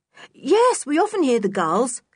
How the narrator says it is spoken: said Dick brightly

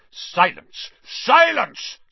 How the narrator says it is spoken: Snape roared

